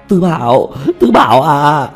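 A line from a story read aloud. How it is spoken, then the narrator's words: Desperate group crying out. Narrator (Vietnamese): Bọn Tiểu Mã kêu gào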